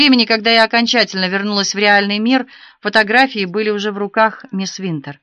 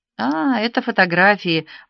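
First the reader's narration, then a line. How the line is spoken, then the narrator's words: Distracted mumble. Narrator (Russian): пробормотала, еще не завершив переход от истории к реальности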